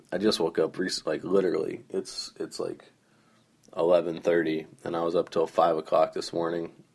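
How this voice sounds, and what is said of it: Hoarse, groggy voice. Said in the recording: “my voice is a little hoarse ... my voice is a little groggy”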